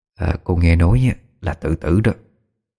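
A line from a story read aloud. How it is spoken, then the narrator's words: Quiet whisper. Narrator (Vietnamese): Đoàn bà thì thầm nho nhỏ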